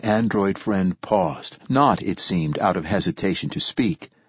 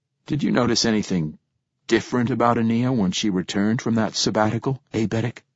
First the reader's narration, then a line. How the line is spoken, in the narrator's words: attempting to sound calm, almost disinterested, and failing miserably, I said